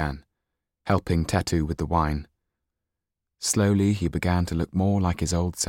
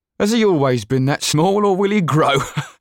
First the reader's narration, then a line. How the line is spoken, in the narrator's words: asked the bald-headed man, laughing